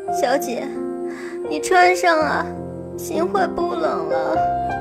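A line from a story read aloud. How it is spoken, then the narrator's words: Choked with tears. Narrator (Chinese): 新慧哽咽的声音响起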